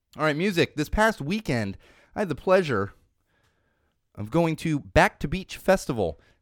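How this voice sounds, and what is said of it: Voice not fully recovered. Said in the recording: “my voice is just not fully back.”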